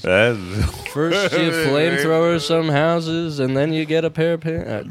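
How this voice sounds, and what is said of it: Impression of Johnny T. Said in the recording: “my Johnny T impression”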